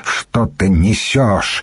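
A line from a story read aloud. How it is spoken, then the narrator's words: Angry. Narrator (Russian): сердито сказала Слада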